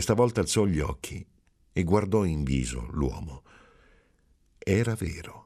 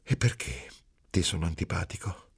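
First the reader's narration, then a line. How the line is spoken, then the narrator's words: Soft affectionate question. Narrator (Italian): ridere piano, affettuosamente, e poi domandare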